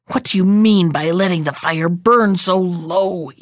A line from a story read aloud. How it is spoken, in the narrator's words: he growled